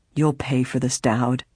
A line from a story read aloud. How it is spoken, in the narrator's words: spoke up in a quavering voice